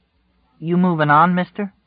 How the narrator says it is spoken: Tom said hesitantly

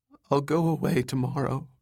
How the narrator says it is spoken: said meekly

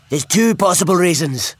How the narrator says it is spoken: shouted Professor Petra from the dimension next door

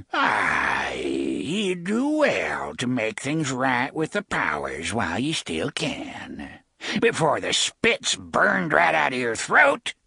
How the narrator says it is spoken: She cackled

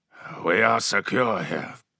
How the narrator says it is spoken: said Hasek coldly

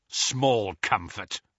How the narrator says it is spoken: snarled Kingsley

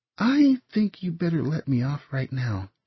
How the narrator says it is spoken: she said quietly

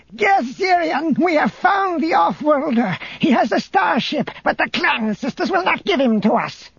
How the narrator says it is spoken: Barissa shouted

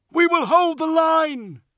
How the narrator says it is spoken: shouted Nemuel

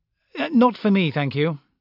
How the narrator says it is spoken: Brocklaw said hastily

